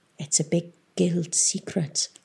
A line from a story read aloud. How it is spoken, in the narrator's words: whispered Bevis